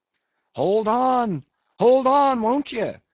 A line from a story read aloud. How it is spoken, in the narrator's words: cried Stubb to the body